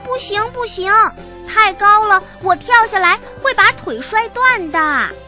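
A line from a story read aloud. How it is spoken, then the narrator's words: Anxious shouting. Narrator (Chinese): 笨狼急得大叫起来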